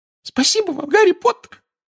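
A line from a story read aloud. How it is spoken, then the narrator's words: Squeak. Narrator (Russian): пропищал Добби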